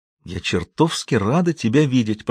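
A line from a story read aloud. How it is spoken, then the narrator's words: Whisper. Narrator (Russian): прошептала Роуз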